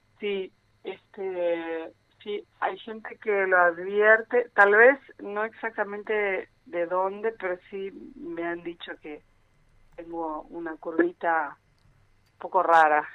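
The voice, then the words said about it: Brazilian accent in Spanish. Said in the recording (Spanish): “Tenés un acento brasileño”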